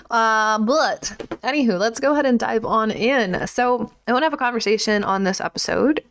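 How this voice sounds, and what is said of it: Slight country twang. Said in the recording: “have a little bit of a country twang”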